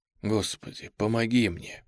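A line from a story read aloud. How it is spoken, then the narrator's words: Whispered. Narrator (Russian): прошептал Марк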